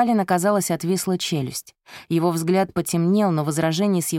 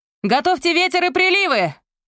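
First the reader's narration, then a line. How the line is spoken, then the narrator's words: Shout. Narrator (Russian): прокричала Вивия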